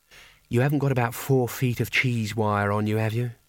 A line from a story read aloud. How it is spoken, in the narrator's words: she said wistfully